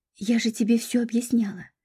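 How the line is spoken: Soft whisper. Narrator (Russian): тихонько прошептала подруга

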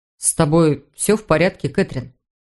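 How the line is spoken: Plain. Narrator (Russian): спросил Питер

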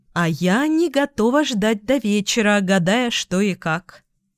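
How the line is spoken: Plain. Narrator (Russian): сказала Эльга

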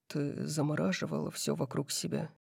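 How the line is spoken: Quiet. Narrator (Russian): тихо сказал Дариус

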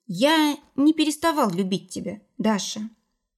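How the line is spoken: Very quiet. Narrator (Russian): Ваня очень тихо произнес

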